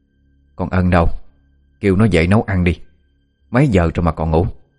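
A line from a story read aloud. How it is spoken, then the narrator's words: Harsh stern voice. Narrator (Vietnamese): Bà Đan gằn giọng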